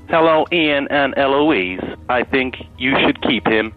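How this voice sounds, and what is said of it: Robotic computer-like voice. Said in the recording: “It's a good robot voice. ... That's not a robot voice, though. That's a computer voice.”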